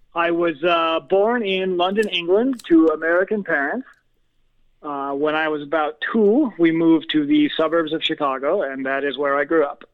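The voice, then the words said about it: American Midwest accent. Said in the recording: “that lovely Midwest accent instead of the London accent”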